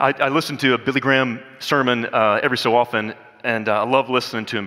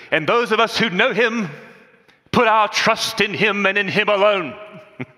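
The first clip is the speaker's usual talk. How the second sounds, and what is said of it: Fired-up Billy Graham North Carolina impression. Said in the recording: “I can almost do it just like Billy Graham ... He had that North Carolina accent, and in his younger days, Billy Graham was kind of fired up ... I'll try to do it like him again”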